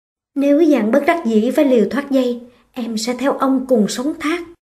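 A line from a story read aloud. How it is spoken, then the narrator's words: Soft quiet voice. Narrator (Vietnamese): Chiếp Lăng khẽ bảo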